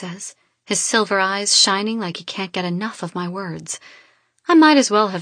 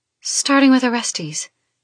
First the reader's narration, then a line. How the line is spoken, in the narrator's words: I add breathlessly